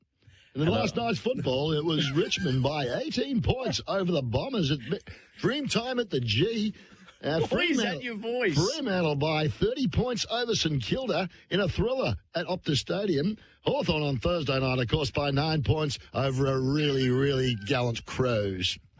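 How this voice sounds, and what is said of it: Newsreader voice. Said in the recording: “Give us your best newsreader. ... Why did you do a different voice?”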